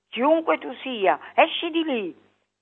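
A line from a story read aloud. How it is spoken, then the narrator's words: Shouting. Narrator (Italian): grido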